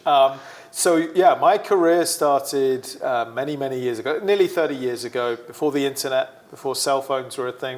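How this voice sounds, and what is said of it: British accent, sometimes mistaken for Australian. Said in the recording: “Originally from the UK, my accent does confuse some people. A lot of people think I'm Australian, but I'm absolutely not. Very much British.”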